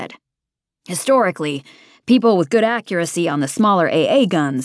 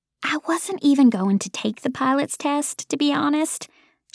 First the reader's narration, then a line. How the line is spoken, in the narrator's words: she said in a conspiratorial tone